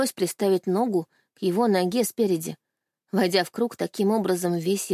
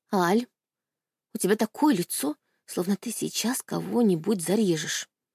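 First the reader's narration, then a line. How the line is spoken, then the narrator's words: Whispered. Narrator (Russian): шепнула мне Анька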